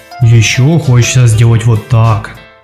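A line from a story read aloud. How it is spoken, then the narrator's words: Deep rumbling voice. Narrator (Russian): пробасил Горыныч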